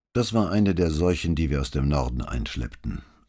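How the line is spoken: Dry. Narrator (German): sagte der Conte trocken

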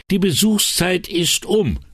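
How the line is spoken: Woman shouting over noise. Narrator (German): rief sie, das Geschrei übertönend

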